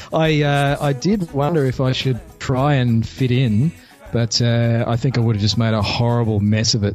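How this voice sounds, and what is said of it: Australian accent. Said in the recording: “you sound like you might have some kind of accent ... I am from a place called Australia”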